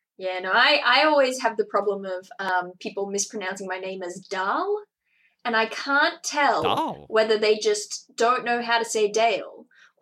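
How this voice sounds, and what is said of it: Australian accent. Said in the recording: “this accent ... in an Australian accent, that does kind of sound like Dahl”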